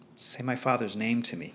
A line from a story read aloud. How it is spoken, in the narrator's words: Kira begged